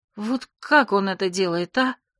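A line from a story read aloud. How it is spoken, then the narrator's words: Admiring exhale. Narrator (Russian): Я восхищенно выдохнула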